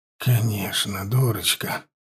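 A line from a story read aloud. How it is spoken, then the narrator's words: Affectionate. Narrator (Russian): проговорил он ласково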